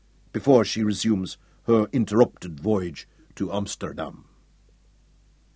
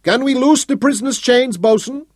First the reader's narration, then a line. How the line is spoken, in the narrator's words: One of the guards in the pinnace shouted up to him